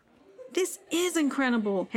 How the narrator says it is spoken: Henry exclaimed with excitement

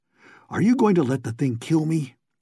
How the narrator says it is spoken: His teeth chattered and stopped and chattered again, and at long last he panted despairingly

